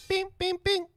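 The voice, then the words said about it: Imitates a microwave beeping. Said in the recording (Spanish): “¡La imitación del microondas!”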